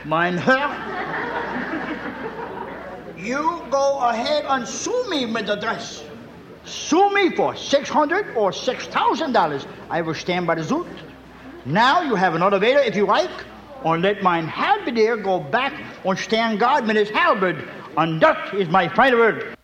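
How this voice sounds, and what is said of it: Comic German accent. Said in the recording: “comic German accent”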